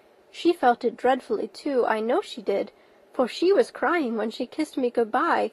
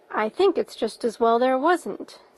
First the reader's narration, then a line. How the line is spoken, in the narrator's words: said Marilla dryly